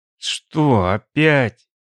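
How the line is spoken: Groaning. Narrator (Russian): простонал Алекс

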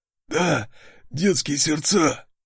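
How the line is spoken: Hoarse. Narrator (Russian): Сипло ответил он

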